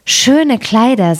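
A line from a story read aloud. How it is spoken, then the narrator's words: Plain. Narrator (German): sagte die eine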